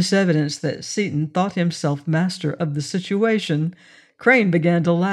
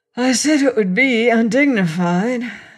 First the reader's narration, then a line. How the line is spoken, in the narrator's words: said Seaton, somewhat short of breath, but laughing too